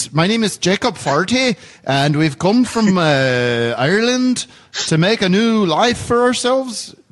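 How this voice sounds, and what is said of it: Bad put-on Irish accent. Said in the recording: “That's not a good accent”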